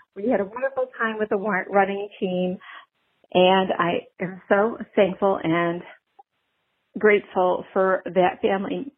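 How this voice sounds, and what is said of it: Choked-up, emotional voice. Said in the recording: “I'm getting choked up, sorry.”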